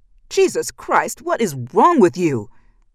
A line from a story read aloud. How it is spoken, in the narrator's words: Ben shouted